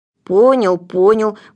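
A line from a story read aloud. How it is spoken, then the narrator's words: Grumbling. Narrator (Russian): проворчал Гунька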